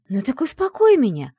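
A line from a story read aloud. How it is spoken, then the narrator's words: Exclaimed. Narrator (Russian): Воскликнула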